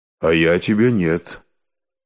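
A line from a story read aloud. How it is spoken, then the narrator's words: Calm reply. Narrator (Russian): Илья ему в ответ спокойно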